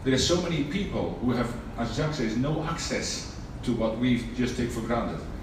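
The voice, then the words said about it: Noticeable non-South African foreign accent. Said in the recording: “I am not originally, as you can tell by the accent, from South Africa”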